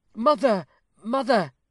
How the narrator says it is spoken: cried Sybil, affrighted at the form she had unwittingly aroused

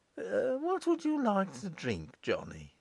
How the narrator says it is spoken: he inquired soothingly

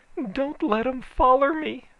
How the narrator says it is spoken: she begged

